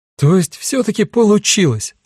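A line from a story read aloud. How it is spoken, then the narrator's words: Exclaimed. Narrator (Russian): воскликнула Кара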